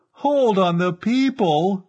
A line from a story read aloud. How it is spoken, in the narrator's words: Stranor Sleth fairly howled, appealing to Verkan Vall